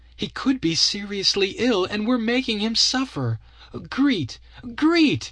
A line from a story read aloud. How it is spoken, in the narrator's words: cried